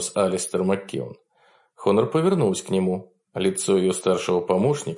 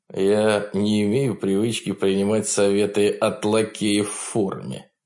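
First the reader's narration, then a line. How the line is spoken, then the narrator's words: Mocking, through gritted teeth. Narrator (Russian): насмешливо процедил он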